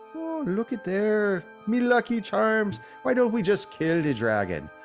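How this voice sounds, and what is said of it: Put-on Irish accent. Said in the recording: “trying to find my Irish accent.”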